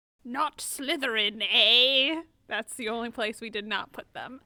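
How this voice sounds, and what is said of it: Sorting Hat character voice. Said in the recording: “my really good impression that I just did of of the hat ... It was a really good impression”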